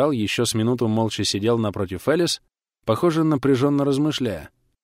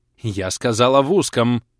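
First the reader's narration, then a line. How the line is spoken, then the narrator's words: Barked. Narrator (Russian): рявкнула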